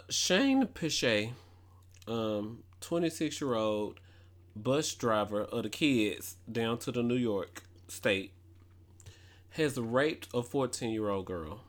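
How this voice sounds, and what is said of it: Strong country accent. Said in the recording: “I can get loud and talk fast ... my country accent is a lot”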